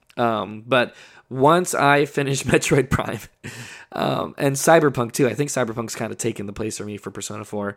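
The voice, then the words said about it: Hoarse, strained voice from illness. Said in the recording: “My voice is almost gone. You can tell I'm sick.”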